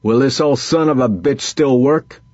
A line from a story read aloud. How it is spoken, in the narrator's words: Vince shouted